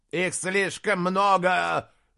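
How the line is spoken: Shouting. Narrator (Russian): закричал Аспитис

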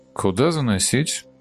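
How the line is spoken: Soft-voiced man asking. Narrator (Russian): Мягким голосом поинтересовался высокий мужчина

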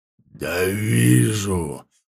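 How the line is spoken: Growling. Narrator (Russian): прорычал ворк

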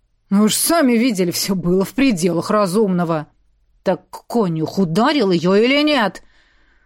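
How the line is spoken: Angry growl. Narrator (Russian): Уже рычал я, не в силах сдержать гнев

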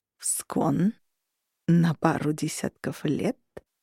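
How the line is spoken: Insinuating drawl. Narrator (Russian): вкрадчиво протянул Хартад

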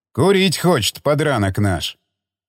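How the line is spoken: Amused snort. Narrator (Russian): Хмыкнул Павел

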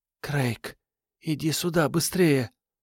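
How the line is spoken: Whispered call. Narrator (Russian): шепотом позвала Вера

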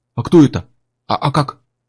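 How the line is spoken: Timid babbling. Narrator (Russian): пролепетал Гектор

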